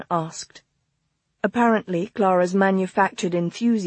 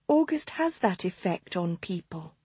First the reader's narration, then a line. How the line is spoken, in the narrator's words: Anne Stage whispered